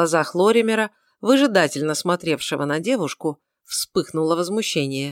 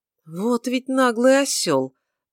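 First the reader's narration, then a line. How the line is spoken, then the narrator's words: Through clenched teeth. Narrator (Russian): процедил Лоример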